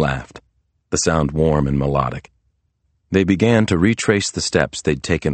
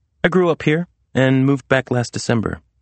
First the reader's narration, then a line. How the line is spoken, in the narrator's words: she answered